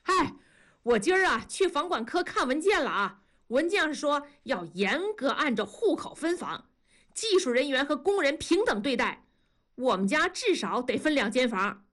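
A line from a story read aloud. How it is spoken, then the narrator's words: Loud greeting. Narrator (Chinese): 庄嫂跟两个女人大声的打招呼说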